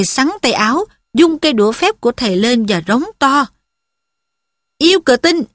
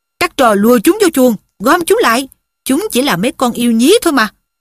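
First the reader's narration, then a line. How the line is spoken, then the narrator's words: Shouting. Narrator (Vietnamese): Thầy Lockhart quát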